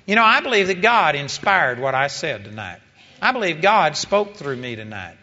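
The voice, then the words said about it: Texas twang accent. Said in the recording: “it has a Texas twang”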